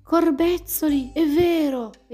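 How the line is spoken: Snake exclaiming. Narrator (Italian): esclamò la biscia

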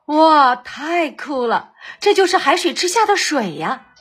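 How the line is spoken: Admiring exclamation. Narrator (Chinese): 达西西也赞叹道

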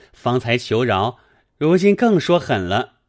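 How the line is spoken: Laughing. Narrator (Chinese): 宝玉笑道

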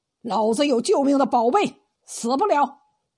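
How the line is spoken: Fierce roar. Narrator (Chinese): 梅大胡子把眼睛一瞪，吼道

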